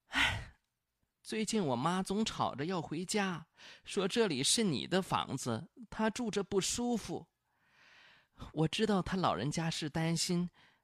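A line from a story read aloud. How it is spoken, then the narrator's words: Sighing. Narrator (Chinese): 李辉叹了口气，说了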